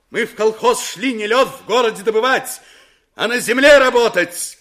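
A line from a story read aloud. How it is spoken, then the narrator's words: Shouted. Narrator (Russian): крикнуло с места Строганова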